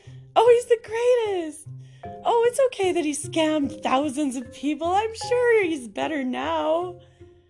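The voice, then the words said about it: Mocking delusional girl voice. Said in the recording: “I can't do a Russian accent, but I can do a delusional girl accent”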